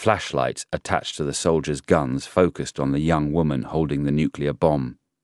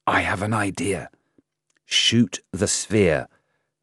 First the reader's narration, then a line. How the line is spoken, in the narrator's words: the explosives expert whispered to Da Shi